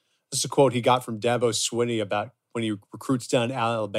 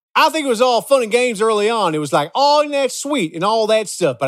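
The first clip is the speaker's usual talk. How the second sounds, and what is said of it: Bad Southern accent imitating Dabo Swinney. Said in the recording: “I'm going to read this in a bad Southern accent.”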